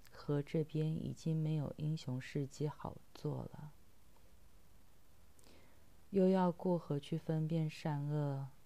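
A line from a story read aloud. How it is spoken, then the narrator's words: Smiling. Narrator (Chinese): 老船夫笑着说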